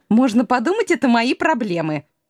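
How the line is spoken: Snapping back. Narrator (Russian): огрызнулась Илона

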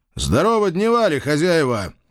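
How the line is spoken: Loud greeting. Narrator (Russian): громко поприветствовал

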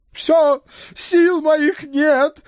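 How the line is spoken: Near howl, exasperated horse. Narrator (Russian): едва не взвыл черный конь

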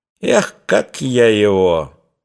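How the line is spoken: Merry laughter. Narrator (Russian): Дарья весело хохотала

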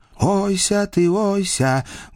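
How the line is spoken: Muffled distant call. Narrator (Russian): глухо летело издалека

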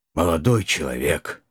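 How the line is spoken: Tired sighing parent. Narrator (Russian): устало выдохнул родитель

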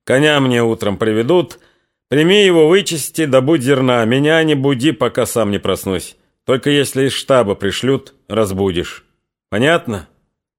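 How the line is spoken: Cheered-up commanding. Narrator (Russian): уже повеселевшим голосом приказал Прохору

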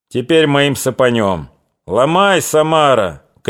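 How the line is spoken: Shouted. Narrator (Russian): крикнули

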